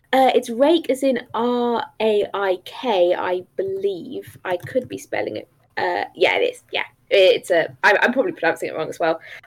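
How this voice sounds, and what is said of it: English accent. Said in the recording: “I moved from England when I was 6 and I never lost the accent”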